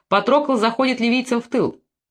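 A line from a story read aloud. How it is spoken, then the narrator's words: Shouted. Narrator (Russian): Пентуэр и крикнул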